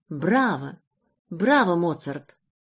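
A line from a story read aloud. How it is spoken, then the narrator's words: Delighted exclamation. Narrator (Russian): с восторгом воскликнул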